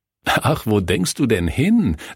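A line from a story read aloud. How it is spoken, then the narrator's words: Laughing. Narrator (German): lachte Kurt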